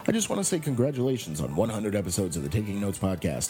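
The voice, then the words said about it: Deep radio announcer voice. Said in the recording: “your disembodied announcer voice.”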